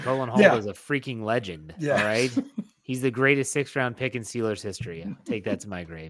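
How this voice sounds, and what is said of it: Deadpan sarcastic delivery. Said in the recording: “please understand that's deadpan sarcasm”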